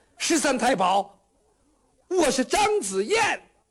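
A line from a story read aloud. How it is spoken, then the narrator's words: Urgent shout. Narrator (Chinese): 张子燕在这边情急之下喊了一声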